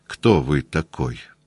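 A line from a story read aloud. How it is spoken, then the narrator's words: Quiet question. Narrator (Russian): он тихо спросил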